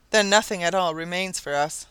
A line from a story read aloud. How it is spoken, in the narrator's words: sighed Sir John, downcast